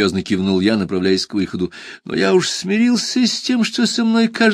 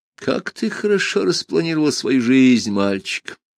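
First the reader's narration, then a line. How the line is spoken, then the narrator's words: Sad, smiling. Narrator (Russian): печально улыбнулся Джуфин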